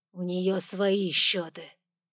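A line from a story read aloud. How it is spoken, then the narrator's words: King speaking through teeth. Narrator (Russian): процедил король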